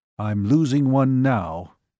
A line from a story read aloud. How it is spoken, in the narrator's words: Cogswell said grimly